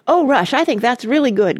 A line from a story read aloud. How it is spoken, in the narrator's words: cried Randy enthusiastically